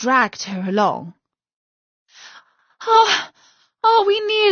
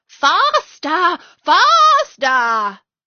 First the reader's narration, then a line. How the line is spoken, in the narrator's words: still the queen cried